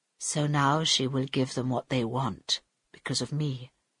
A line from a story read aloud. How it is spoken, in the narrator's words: said Carl quietly